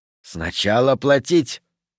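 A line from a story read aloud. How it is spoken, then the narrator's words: Hissed. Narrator (Russian): прошипел молодунг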